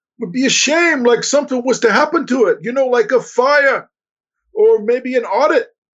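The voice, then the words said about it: Deliberately bad Italian gangster accent. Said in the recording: “I'm doing a very bad Italian gangster accent there”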